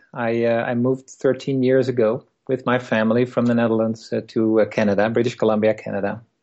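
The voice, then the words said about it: Dutch accent. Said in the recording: “I grew up in the Netherlands, as you probably can hear from my accent.”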